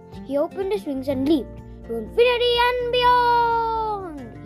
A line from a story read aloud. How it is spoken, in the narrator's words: he called out